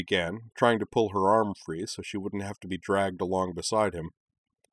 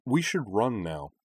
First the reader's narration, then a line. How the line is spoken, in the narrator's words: said Anakin calmly